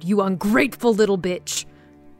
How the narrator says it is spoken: he bellowed

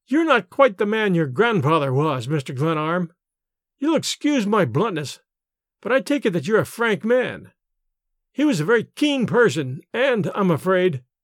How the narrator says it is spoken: he chuckled with evident satisfaction to himself

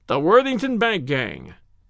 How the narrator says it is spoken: cried the inspector

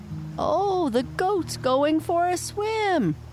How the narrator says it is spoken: one cried

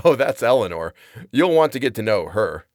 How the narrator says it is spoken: laughs and says

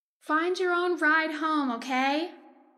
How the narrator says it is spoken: my mother would yell out the passenger window

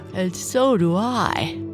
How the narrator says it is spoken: his mother said, yawning

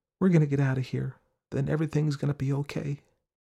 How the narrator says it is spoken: told him in a whisper

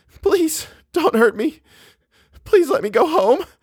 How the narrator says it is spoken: sobbing

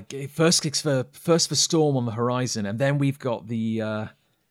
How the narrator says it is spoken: he said, desperately trying to find where did he put it

